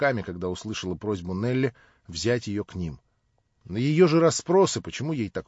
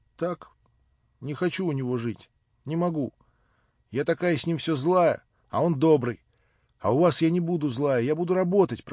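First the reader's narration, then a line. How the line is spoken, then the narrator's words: Hysterical sobbing. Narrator (Russian): проговорила она, рыдая, как в истерике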